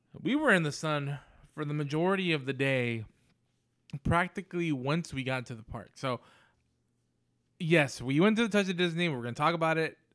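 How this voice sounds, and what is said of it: Dry, slightly parched voice. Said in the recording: “My voice is still a little dry. I'm probably a little dehydrated.”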